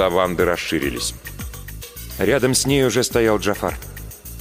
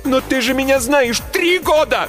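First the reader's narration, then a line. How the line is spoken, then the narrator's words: Frightened shouting. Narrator (Russian): закричала я, пятясь к спасительной двери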